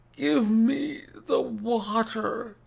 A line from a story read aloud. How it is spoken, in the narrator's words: he gasped